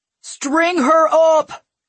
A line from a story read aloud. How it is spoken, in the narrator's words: Kaiderg bellowed